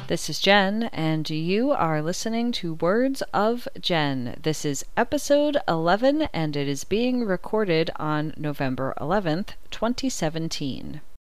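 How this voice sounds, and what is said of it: Tired, unwell-sounding voice. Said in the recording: “You may be able to detect that my voice sounds much more tired than usual in this episode ... I was diagnosed with acute bacterial tonsillitis”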